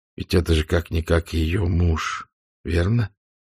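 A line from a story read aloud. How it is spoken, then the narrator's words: Soft male voice. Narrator (Russian): мягко проговорил он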